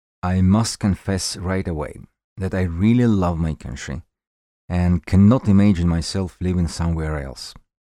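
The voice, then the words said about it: Strong foreign accent. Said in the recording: “even stronger than my accent”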